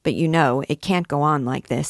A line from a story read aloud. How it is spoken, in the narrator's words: says her sister